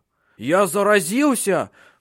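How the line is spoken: Panicked scream. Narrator (Russian): в панике закричал

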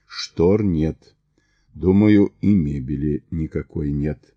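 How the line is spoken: Quiet. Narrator (Russian): тихо произнес

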